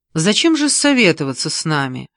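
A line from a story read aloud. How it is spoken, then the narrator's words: Irritated question. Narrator (Russian): раздраженно спросила Ольга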